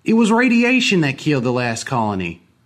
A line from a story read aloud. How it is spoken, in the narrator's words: one man shouted at us